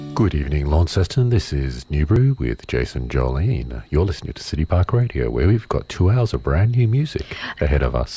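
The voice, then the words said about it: Boring American public radio host voice. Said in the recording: “Did you just make that the most boring radio entry ever? ... I'm practicing my American public radio host voice. ... my new fancy radio voice”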